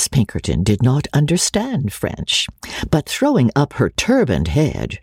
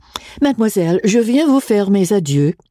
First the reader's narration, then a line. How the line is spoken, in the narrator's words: in a very unconcerned manner, and said in French, with a perfect accent